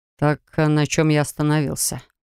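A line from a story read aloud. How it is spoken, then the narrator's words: Sigh. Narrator (Russian): вздохнул он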